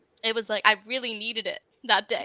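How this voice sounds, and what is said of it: Emotional, tearful voice. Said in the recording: “I'm getting emotional right now. I'm so sorry”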